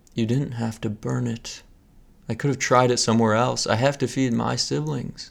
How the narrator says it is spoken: Maya said

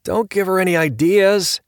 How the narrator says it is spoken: Lieutenant Chapoff called out

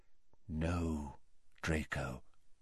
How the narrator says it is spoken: said Dumbledore quietly

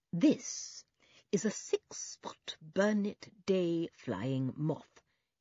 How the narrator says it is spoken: he said, speaking slowly as if he were addressing a very small child

